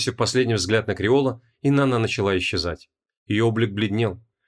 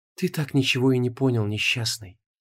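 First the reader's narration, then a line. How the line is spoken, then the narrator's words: Sigh. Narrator (Russian): Вздохнула Инанна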